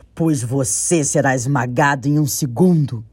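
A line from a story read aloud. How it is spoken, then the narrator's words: Amused terrible roar. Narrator (Portuguese): Tanin achou graça da audácia do pequeno Nim e, com um terrível rugido esfumaçante, respondeu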